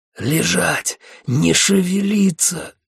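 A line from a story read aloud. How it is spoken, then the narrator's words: Hoarse commander. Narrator (Russian): хрипел капитан-командор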